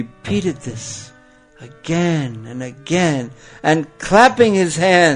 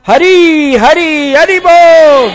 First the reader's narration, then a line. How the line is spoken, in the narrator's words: he began roaring loudly